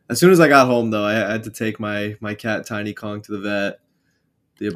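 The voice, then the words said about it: Sick, slightly strained voice. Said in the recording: “I'm also sick myself, so sorry if I sound a little weird. My throat hurts”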